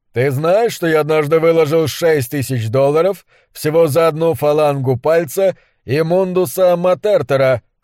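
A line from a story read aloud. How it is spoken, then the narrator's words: Plain. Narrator (Russian): спросил он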